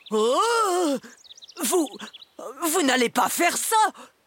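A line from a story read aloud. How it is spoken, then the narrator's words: Mumbling dragon. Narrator (French): bredouille le dragon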